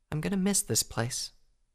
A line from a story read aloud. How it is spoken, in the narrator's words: Twilight said softly